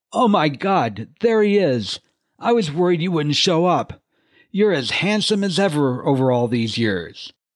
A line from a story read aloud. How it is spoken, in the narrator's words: Marcus exclaimed